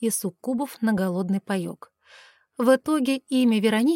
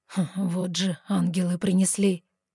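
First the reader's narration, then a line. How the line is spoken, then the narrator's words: Amused snort. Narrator (Russian): хмыкнул он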